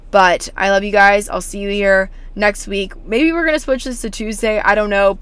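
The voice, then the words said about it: Hoarse, nearly lost voice. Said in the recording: “my voice is literally gone”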